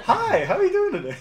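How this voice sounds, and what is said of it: Bright customer service voice. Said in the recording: “customer service voice”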